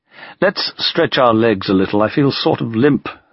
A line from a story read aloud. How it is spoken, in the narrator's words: said Stalin